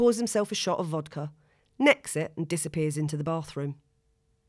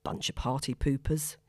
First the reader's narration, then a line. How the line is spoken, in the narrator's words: says under his breath